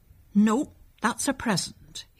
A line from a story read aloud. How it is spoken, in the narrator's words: he said firmly